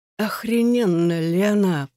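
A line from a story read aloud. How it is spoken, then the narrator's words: Hoarse wheeze. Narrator (Russian): прохрипел он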